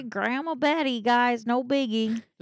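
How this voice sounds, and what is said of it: Put-on Southern American accent. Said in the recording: “Why'd you have a southern accent?”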